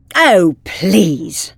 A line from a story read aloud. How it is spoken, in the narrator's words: scoffed the Doctor